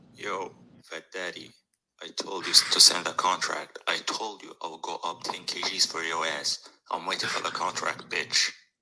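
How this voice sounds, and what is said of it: Heavy accent, sounds like movie villain. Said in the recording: “Accent I've ever heard in my life ... He sounds like every bad guy in like a Bruce Willis movie, like a Die Hard movie or something like that. He sounds like the bad guy, like a villain.”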